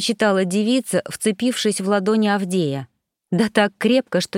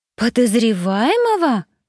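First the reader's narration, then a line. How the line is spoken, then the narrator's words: Indignant exclamation. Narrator (Russian): возмущенно воскликнула она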